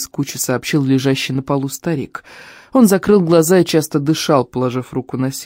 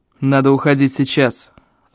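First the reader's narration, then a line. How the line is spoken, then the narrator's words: Growled. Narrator (Russian): рыкнул Эльм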